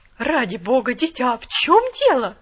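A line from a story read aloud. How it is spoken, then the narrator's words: Exclamation. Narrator (Russian): воскликнула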